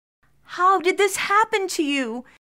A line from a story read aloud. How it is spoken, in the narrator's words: She cried